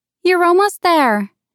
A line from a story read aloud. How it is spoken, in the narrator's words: shouted